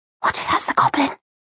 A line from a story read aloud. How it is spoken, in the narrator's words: she whispered nervously